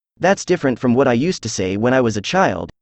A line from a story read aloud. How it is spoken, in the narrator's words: said the Gryphon